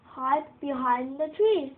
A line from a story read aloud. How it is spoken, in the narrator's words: said the jackals